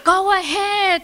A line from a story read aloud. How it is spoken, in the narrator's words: Nita yelled